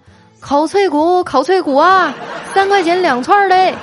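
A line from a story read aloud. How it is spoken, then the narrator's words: Loud hawking call. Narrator (Chinese): 我就大声的吆喝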